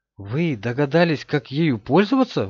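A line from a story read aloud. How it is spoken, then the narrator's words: Exclamation. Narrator (Russian): воскликнул Карл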